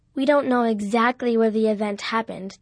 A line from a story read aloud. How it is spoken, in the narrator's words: Dad said